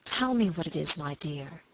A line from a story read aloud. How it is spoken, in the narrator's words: whispered tenderly